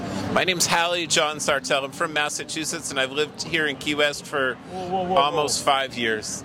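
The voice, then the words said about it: Speaks very fast. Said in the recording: “You said that really fast.”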